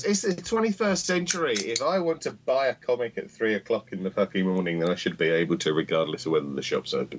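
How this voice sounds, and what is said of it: British accent. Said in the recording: “Sounds so good with a British accent.”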